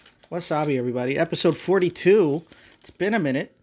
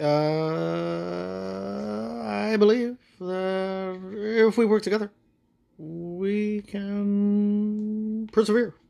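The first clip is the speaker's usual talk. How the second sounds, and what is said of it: Poor Barack Obama impression. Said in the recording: “a sad excuse of an attempt at an Obama impersonation... Or maybe that was William Shatner”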